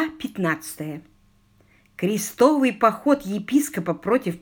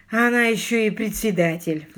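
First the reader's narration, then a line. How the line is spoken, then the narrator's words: Sigh. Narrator (Russian): вздохнул Алик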